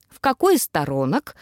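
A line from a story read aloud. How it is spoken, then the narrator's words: Snorting. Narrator (Russian): хмыкнул он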